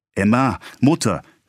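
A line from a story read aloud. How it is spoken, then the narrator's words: Soothing call. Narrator (German): rief Charles beschwichtigend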